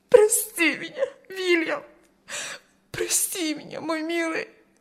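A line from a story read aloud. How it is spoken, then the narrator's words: Sobbing woman. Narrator (Russian): рыдала она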